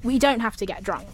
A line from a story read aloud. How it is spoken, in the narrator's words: he added quickly